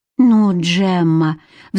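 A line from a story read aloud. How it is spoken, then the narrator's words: Pleading. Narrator (Russian): взмолился он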